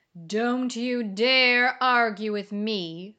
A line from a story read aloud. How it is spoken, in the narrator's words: said the booming voice